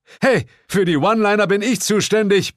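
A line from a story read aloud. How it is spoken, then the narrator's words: Roaring. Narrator (German): brüllte Bill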